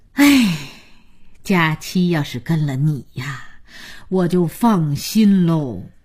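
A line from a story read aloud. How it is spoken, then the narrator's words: Sighing old woman. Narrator (Chinese): 姥姥叹口气说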